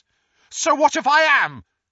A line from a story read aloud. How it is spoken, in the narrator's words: said Neville loudly